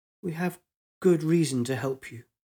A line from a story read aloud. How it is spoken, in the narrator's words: reply was faltering